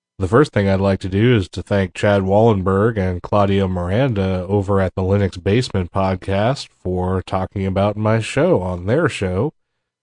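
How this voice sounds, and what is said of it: Sick, under-the-weather voice. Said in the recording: “My voice is a little bit under the weather right now”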